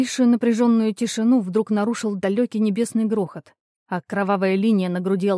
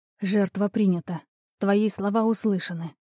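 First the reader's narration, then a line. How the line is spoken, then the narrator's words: Whispered. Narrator (Russian): прошептала Меди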